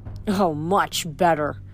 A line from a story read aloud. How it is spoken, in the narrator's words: Octavian grumbled